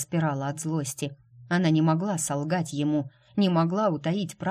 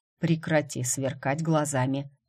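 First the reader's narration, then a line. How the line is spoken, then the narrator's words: Calm request. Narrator (Russian): попросил Грег спокойно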